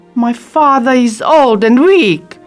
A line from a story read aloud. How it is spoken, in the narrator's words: Belle says angrily